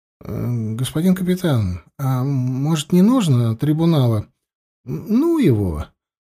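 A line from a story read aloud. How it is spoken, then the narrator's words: Fawning mutter. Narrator (Russian): Заискивающе глядя в глаза Егорова, пробормотал поручик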